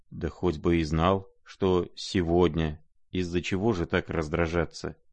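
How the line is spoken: Quiet, embarrassed. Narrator (Russian): тихо промолвил князь в смущении

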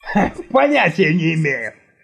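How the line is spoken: Laughing. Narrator (Russian): рассмеялся Александр

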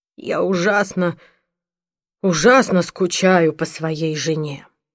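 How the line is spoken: Dejected. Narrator (Russian): уныло произнес

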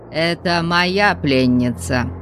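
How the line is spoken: Menacing warning. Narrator (Russian): Грозным голосом Конан предупредил

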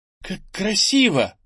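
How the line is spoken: Exclaiming. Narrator (Russian): воскликнула Ира

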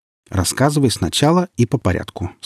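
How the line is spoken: Calm. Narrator (Russian): спокойно сказал барабанщик

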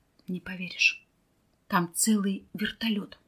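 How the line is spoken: Whisper. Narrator (Russian): Михаил прошептал

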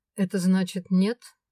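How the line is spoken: Cold question. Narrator (Russian): холодно поинтересовался Свен

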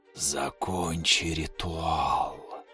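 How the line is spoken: Whisper inside the head. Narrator (Russian): Возникает в моей голове шепот

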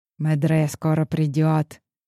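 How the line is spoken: Close whisper. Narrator (Russian): зашептала, склонившись ко мне, моя сопровождающая

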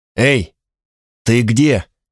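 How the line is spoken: Hoarse shout. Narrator (Russian): крикнул я хрипло

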